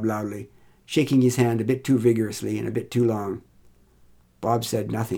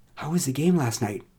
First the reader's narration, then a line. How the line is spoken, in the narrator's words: asked more quietly